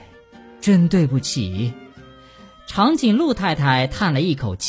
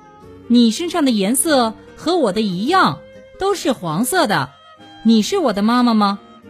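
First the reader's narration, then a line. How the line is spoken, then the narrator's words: Loud. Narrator (Chinese): 秋秋大声说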